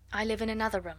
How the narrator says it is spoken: said Sarah

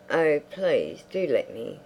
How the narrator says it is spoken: said Isabel

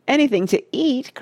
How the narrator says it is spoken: cried Charlie, laughing

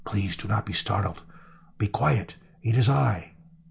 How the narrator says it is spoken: It whispered

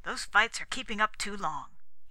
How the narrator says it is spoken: he said sharply

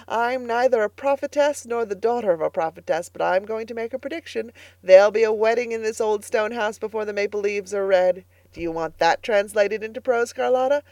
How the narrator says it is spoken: she cried gaily

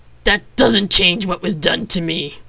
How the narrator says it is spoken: he snapped

